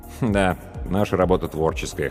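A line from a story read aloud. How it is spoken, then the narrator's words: Wry snort. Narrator (Russian): хмыкнул Павел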